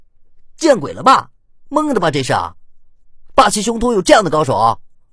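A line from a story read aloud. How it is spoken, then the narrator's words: Shouting. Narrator (Chinese): 流氓玩家叫着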